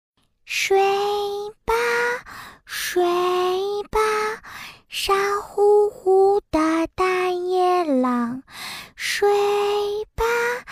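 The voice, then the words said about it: Soft, quiet singing. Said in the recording (Chinese): “小声的唱了起来”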